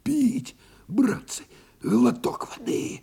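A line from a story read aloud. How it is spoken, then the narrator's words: Hoarse rasp. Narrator (Russian): просипел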